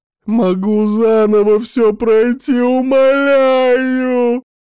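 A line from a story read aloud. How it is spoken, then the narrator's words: Hysterical shouting. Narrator (Russian): кричал он истерическим голосом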